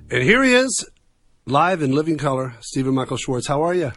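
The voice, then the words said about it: Low smooth radio DJ voice. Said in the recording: “you sound like a DJ ... that DJ voice ... that FM low, nice sound”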